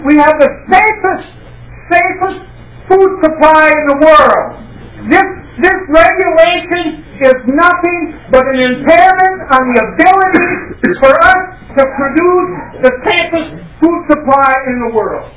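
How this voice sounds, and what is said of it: Loud, raised speaking voice. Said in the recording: “I'm sorry if I'm raising my voice, my hearing is going.”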